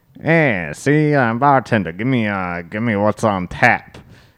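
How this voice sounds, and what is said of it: Heavy put-on Italian accent. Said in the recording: “they do have a heavy Italian accent.”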